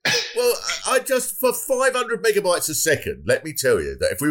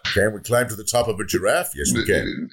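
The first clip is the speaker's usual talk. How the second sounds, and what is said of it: Barack Obama impression. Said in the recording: “shoehorn your impression in ... I want to do a Barack Obama impression”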